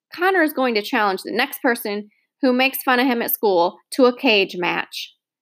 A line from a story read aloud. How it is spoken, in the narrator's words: I blurted